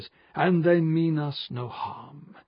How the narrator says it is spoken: he'd said in that deep, seductive voice of his

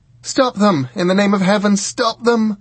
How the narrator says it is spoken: shouted Bridget

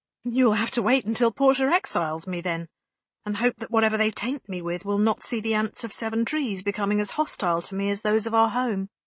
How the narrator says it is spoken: Bianca taps out bitterly

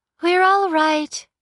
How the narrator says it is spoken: the girl said, smiling brightly

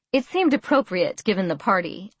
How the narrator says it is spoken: I laughed

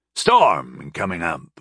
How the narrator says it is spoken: he grunted

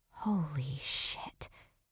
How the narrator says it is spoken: Sam whispered, her jaw dropping at the view

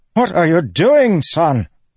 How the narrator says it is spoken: Rishon sputtered on the ground, his nose bleeding

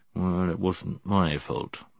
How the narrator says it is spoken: he only muttered under his breath

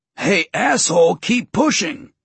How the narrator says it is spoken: the other man grunted

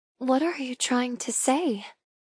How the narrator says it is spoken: I whisper

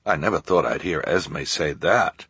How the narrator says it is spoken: Jerome murmured

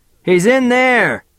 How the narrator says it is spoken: someone yelled

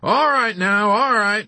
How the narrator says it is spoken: giggling like a crazy little freak, and then saying

